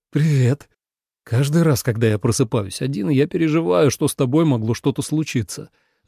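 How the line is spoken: Sighing. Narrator (Russian): вздохнул Ленард

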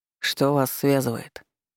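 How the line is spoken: Calm inquiry. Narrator (Russian): спокойно поинтересовался Святослав

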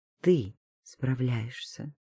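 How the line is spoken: Gentle correction. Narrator (Russian): поправил мягко

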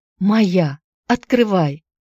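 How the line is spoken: Mother's shocked cry. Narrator (Russian): Мать вскрикнула, увидев повешенного сына

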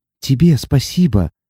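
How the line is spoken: Happy tearful whisper. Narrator (Russian): счастливо шепнула Сати, ощущая, как по щекам градом покатились слезы

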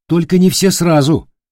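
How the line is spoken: Scoffing grunt. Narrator (Russian): хмыкнул Дорофеев

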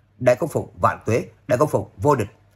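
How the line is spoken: Excited crowd cheering loudly. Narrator (Vietnamese): Mọi người lập tức hưng phấn cao giọng hò hét

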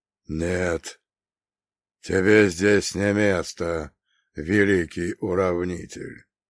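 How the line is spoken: Quiet, clear priest's voice. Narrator (Russian): тихо, но четко произнес священник, и его слова в мертвой тишине прозвучали громче любого набата

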